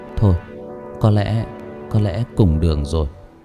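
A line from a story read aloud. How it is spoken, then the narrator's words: Resigned sigh. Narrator (Vietnamese): tôi thở dài nói với mọi người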